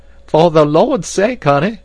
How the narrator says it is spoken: cried Esmeralda

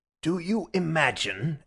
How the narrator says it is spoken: asked the professor furiously

